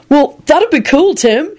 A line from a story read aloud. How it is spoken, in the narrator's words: he said cheerfully